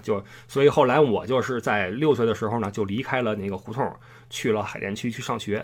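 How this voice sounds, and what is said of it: Beijing hutong accent. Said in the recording (Chinese): “我我口音上还是比较有胡同的特征，但是你要是仔细听的话，跟南城人说话不一样”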